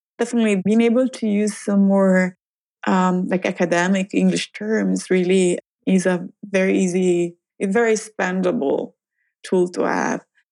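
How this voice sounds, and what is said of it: Italian-accented English. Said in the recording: “my accent could be labeled as charming for some people”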